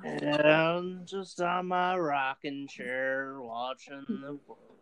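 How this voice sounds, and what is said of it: Slow molasses southern drawl. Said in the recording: “You just sounded like a bear. ... You're doing that sort of like southern accent that's a like slow molasses.”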